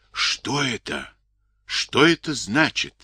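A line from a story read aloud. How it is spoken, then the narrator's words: Frightened whisper. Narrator (Russian): испуганно зашептал зоолог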